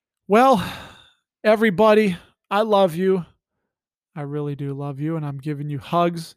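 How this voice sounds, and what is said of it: Usual voice. Nothing is said of it.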